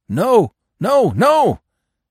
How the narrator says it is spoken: yelped the dog

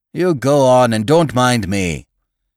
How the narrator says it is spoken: said he, speaking in a hoarse, angry tone

